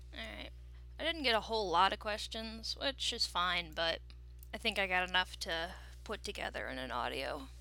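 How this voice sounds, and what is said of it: Tired-sounding voice. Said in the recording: “I sound very tired.”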